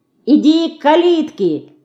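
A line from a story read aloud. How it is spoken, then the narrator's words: Shouted. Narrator (Russian): крикнула Динка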